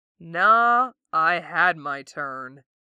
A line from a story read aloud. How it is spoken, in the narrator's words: he drawls